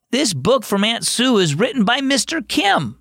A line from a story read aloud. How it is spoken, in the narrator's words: exclaimed